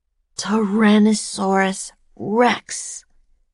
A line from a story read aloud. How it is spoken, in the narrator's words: whispered Jack